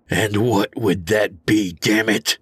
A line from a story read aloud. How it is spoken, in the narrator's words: I growled